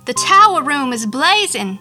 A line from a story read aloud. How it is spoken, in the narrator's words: the man gasped